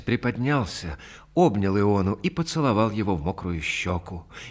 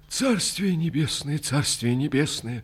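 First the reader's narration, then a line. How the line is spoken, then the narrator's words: Trembling mutter. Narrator (Russian): дрожащим голосом пробормотал он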